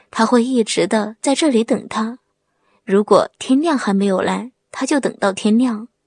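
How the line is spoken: Tearful, choked voice. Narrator (Chinese): 他泪流满面的，哽咽的说

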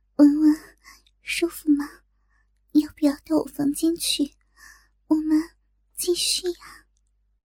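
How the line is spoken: Whispering in ear. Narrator (Chinese): 小颖在小文的耳边小声的说

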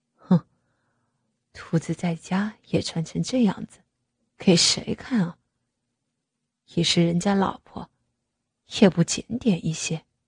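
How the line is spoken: Muttering to himself. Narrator (Chinese): 他喃喃自语道

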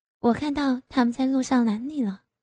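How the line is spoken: Soft question. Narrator (Chinese): 张丽就轻声问道

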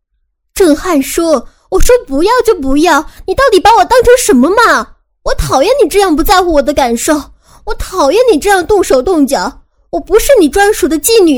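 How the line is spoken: Angry shouting. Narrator (Chinese): 我忽然很生气，于是我对他大喊

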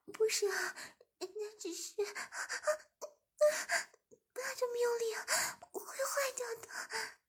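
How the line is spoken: Breathless. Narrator (Chinese): 志明喘了口气

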